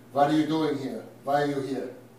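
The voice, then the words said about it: Put-on Yiddish accent. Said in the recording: “I'll do my best Yiddish accent.”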